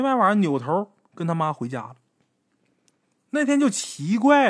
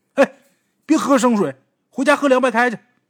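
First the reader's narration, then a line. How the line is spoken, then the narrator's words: Mother calling from afar. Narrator (Chinese): 他妈在球场门口喊他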